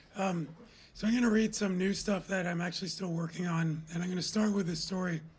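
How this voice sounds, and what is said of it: Weak, hard-to-hear voice. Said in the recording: “my voice is terrible. Can you hear me at all?”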